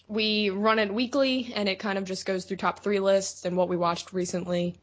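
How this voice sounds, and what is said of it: Baltimore, Maryland accent. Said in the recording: “we all are from Baltimore, Maryland. So that would be what my accent is”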